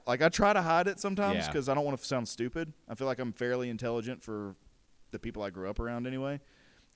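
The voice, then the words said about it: Southern American accent. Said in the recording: “I got a southern accent ... John has a southern accent ... I try to hide my accent sometimes”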